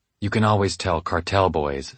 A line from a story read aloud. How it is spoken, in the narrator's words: Stewart whispered